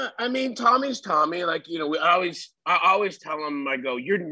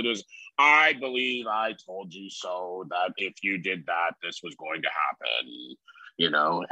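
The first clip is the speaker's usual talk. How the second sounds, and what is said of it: Imitates another person's voice. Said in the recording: “That's actually a pretty good impersonation of Tommy”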